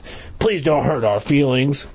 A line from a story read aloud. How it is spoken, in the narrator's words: Chip rasped